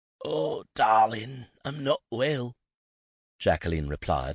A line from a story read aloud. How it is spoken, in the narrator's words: her voice extremely croaky